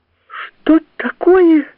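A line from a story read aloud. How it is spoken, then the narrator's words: Shouted. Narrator (Russian): закричала Зина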